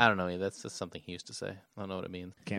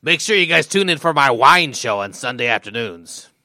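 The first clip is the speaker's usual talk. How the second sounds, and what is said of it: Imitates another person's voice. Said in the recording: “your Tom Likas impression”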